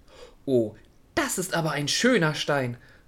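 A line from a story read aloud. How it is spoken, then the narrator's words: Quiet voice. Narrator (German): hörte die Schnecke eine leise Stimme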